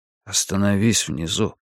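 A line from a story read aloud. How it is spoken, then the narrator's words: Whispered warning. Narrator (Russian): шепотом предупредил я Дела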